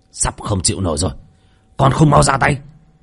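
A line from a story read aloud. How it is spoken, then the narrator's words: Shouted. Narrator (Vietnamese): Sau tiếng quát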